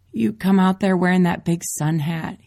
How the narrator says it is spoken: he chuckles

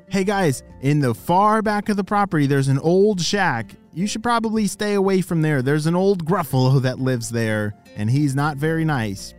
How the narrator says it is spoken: Their grandparents shouted

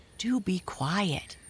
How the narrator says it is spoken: begged her friend

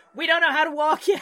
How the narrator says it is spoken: shout

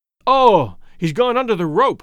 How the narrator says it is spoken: gasped R

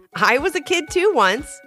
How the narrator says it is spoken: she said with a laugh

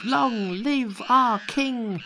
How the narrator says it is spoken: great monkeys and small, leapt out with cries of

